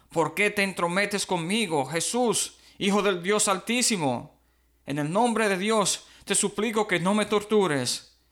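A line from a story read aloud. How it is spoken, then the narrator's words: Shrieking, shouting. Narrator (Spanish): Dando un alarido, gritó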